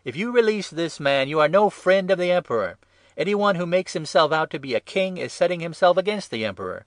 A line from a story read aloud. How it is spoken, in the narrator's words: the Jews shouted